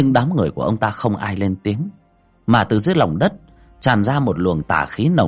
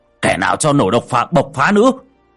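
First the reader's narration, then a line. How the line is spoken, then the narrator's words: Shouting. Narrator (Vietnamese): Ông Khôi thấy vậy thì hét lên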